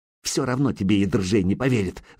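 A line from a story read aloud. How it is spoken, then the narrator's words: Hissing. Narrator (Russian): зашипела Зарица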